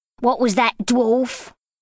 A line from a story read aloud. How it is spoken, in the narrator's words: snarled